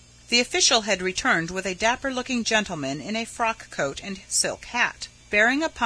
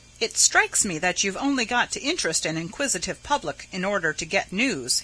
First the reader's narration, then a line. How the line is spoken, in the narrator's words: he said